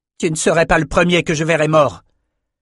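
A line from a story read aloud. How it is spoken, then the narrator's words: Loud shouting. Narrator (French): Criant aussi fort que le norocaille, Bannon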